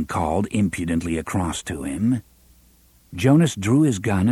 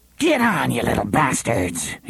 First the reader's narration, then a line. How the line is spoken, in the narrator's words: he snarled